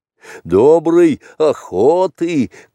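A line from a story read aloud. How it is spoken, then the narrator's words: Shout. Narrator (Russian): крикнул Балу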